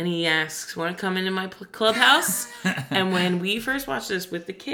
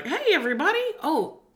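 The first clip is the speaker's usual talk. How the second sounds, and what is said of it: Cartoon Mickey Mouse voice. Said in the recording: “do a Mickey voice”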